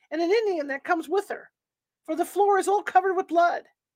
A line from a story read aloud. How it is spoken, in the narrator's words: one cried